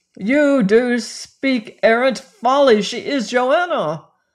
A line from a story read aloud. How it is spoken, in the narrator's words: cried I